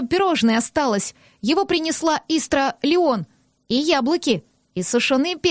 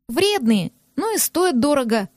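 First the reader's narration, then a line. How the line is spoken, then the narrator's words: Calm girl's explanation. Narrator (Russian): спокойно пояснила девочка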